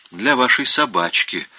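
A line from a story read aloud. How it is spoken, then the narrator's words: Gentle, several voices. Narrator (Russian): ласково говорили они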